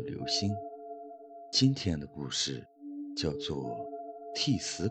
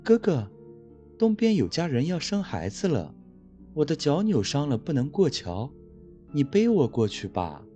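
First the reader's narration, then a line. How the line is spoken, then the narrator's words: Woman speaking smilingly. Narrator (Chinese): 一个异常美丽的女子笑着说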